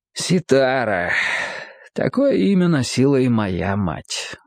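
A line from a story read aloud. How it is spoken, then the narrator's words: Sighing. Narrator (Russian): вздохнул Ибн Сина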